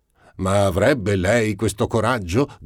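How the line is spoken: Shouting, leaping up. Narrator (Italian): gridò balzando sulla seggiola

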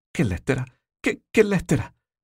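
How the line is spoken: Terrified stammer. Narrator (Italian): aveva ella balbettato, atterrita

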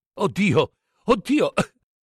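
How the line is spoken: Choking, tearful sobbing. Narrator (Italian): singhiozzò Don Diego, mezzo affogato, con gli occhi pieni di lacrime

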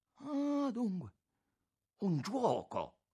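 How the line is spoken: Exclaiming. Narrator (Italian): esclamò Aurelio Costa

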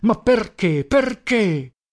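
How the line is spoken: Angry shout. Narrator (Italian): Gridavo con rabbia

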